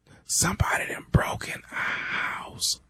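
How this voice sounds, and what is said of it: Scared whisper. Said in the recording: “why the hell you whispering?”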